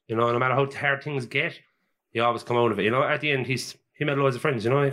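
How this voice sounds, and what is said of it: Irish Cork accent. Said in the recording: “that's a Cork accent, is it?... Yeah, 100%.”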